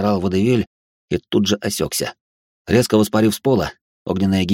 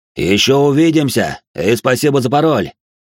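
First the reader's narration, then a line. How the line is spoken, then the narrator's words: Shouting after someone. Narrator (Russian): выкрикнул вслед Элир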